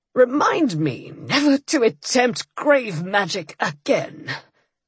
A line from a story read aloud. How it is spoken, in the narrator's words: he moaned